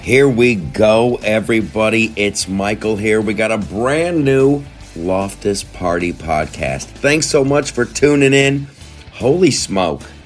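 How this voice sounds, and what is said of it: Slightly raspy, worn-out voice. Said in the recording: “I'm a little raspy. I'm a little worn out”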